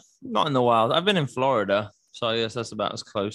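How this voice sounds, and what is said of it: Usual voice. Nothing is said of it.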